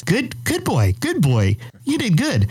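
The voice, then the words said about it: Very positive, praising voice. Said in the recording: “in a very positive voice,”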